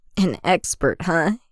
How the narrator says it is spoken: Anakin chuckles

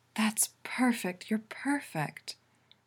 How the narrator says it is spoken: Allura moans

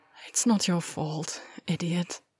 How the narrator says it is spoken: I sighed

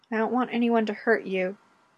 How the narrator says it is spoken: Fraser said quietly

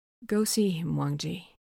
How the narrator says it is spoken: Lan Xichen says quietly

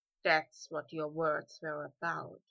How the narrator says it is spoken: he murmured

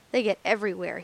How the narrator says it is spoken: he said bitterly

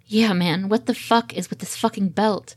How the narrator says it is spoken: Ed growls

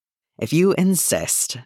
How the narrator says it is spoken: Deppa sighed

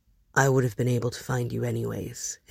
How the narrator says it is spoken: his friend mutters

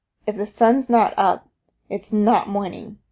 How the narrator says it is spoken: he croaked

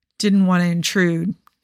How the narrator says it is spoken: slurs

